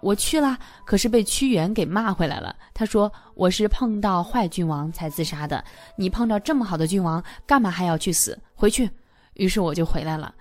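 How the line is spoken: Cheerful, laughing. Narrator (Chinese): 刘罗锅笑呵呵地说道

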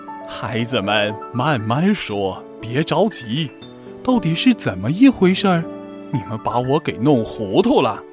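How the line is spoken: Cheerful old woman. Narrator (Chinese): 熊婆婆笑呵呵地说

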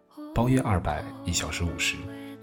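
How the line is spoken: Young woman, flat and casual. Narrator (Chinese): 姑娘淡淡的说出价格

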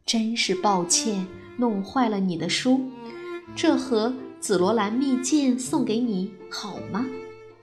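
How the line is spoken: Gentle. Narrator (Chinese): 皇后温柔地说

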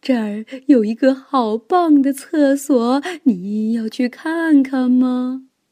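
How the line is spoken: Sly, mischievous. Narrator (Chinese): 妖怪就一脸坏笑地说

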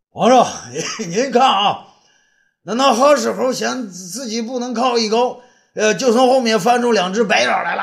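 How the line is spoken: Loud excited shout. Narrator (Chinese): 东方朔第一个发现此情此景，他高声叫道

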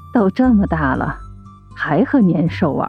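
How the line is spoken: Mumbling. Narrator (Chinese): 秋秋妈妈在嘟囔

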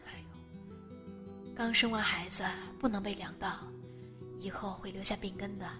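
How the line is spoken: Muttering. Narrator (Chinese): 舅妈在一边嘀咕

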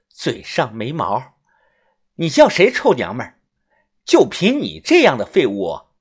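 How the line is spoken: Cold. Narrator (Chinese): 宋医生冷声的说道

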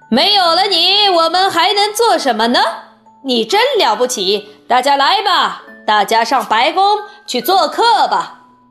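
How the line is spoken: Excited shout. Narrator (Chinese): 王克先生叫道

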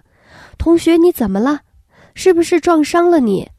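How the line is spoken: Urgent, worried. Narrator (Chinese): 那群女生以为撞坏了人，声音更加急切了

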